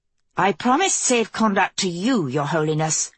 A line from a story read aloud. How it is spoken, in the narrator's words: Kelsey snapped